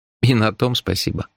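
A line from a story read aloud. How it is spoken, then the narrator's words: Sad, smiling. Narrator (Russian): печально улыбнулся я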